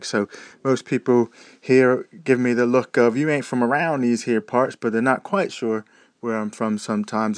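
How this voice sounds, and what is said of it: Muddled American-British accent. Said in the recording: “a transplanted American living in Britain for the last sort of 12 years ... my accents are all sort of muddled up and jumbled up ... they go, oh, you sound all British ... there is a big change in my accent”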